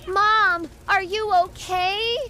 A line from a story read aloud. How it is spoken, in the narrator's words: I panicked and called out to my mom